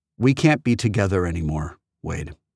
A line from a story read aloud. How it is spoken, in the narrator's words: she said, evenly, her voice suddenly devoid of emotion